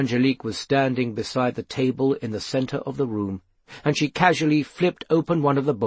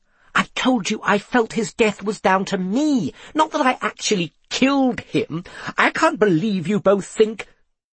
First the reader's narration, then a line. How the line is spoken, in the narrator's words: Then she spluttered